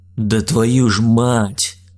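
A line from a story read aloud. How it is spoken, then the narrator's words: Stunned drawl. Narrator (Russian): пораженно протянул Михаил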